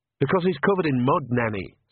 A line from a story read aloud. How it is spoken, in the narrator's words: said Agnes sharply